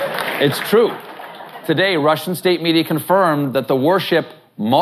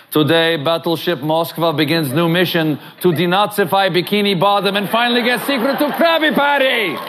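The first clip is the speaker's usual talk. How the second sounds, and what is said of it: Drifting put-on Russian accent. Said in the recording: “I'm sure I did the accent right. ... I have a really drifting Russian accent. It gets Italian very quickly.”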